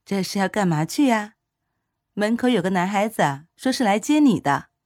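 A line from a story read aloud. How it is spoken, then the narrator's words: Smiling. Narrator (Chinese): 莫妈妈 笑着说道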